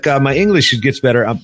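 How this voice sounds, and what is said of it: Put-on foreign accent in English. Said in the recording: “Pardon me for my bad, you know, the xenophobic accent”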